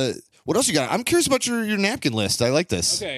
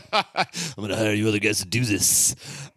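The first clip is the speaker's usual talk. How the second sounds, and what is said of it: Imitates another person's voice. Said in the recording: “my John Carpenter impression”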